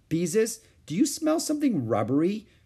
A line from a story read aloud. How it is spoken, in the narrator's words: she asked anxiously